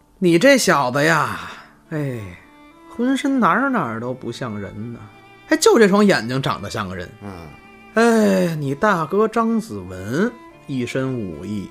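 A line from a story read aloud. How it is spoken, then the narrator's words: Emboldened, marveling. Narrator (Chinese): 张有才这会儿有胆子了，感叹呀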